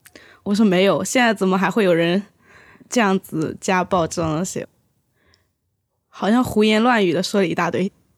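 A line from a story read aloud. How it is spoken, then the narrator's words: Laughing. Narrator (Chinese): 笑着说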